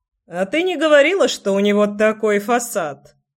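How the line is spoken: Guy chuckling. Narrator (Russian): хохотнул чувак

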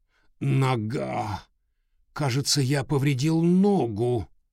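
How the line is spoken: Groaning scientist. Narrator (Russian): простонал ученый

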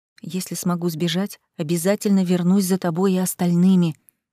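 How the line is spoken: Whispered in ear. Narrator (Russian): прошептала я на ухо Тамаре

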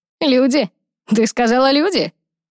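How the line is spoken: Laughing. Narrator (Russian): Он снова рассмеялся

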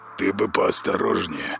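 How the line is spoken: Muttering. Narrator (Russian): пробормотал Влад

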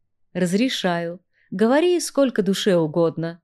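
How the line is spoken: Short chuckle. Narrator (Russian): хохотнул Арагон

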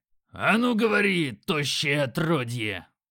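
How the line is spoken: Growled. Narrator (Russian): Грок рыкнул

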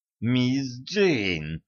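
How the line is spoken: Said through clenched teeth. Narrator (Russian): процедил

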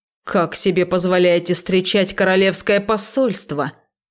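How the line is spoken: Knight's menacing bark. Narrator (Russian): грозно гаркнул верный рыцарь

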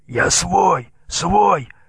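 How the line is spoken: Hoarse wheeze. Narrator (Russian): хрипел татарин

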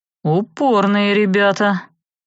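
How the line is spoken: Snorting, wry. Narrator (Russian): вампир хмыкнул

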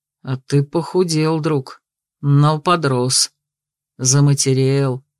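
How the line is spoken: Gentle, tender. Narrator (Russian): говорил ласково

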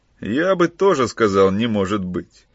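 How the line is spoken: Conciliatory. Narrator (Russian): Примирительным тоном вмешался Кранц

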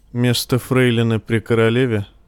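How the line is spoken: Dull-voiced question. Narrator (Russian): тусклым голосом спросила

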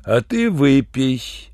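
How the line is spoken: Ingratiating request. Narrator (Russian): вкрадчиво попросил усатый

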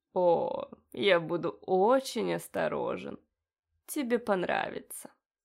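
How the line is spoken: Pleased purring. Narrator (Russian): промурлыкал довольный

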